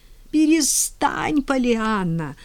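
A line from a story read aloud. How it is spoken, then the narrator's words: Despairing moan. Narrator (Russian): стонала миссис Кэррю в приступе отчаяния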